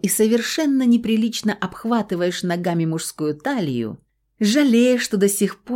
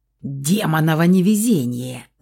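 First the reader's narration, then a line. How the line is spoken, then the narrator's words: Angry cursing. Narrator (Russian): зло выругался Феникс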